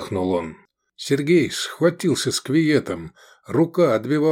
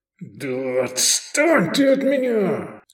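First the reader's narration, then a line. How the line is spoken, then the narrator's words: Growling. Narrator (Russian): зарычал Лобанов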